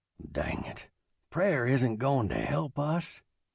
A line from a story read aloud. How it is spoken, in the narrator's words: he mumbled